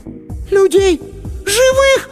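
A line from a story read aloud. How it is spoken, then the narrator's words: Shrill shriek. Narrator (Russian): Сонька взвизгнула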